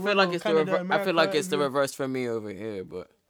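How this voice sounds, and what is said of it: American accent. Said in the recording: “he's got an American accent.”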